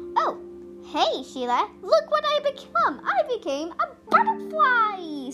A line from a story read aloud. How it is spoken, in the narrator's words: said Hazel happily